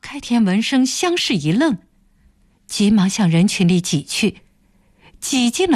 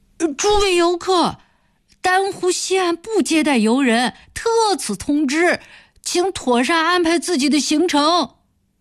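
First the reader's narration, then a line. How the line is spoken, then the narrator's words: Familiar voice shouting from crowd. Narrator (Chinese): 忽然听见一个熟悉的声音在人群中喊道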